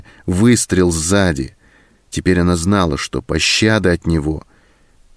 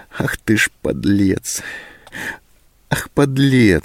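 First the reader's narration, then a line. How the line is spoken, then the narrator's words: Sobbing to herself. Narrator (Russian): сказала она себе, всхлипнув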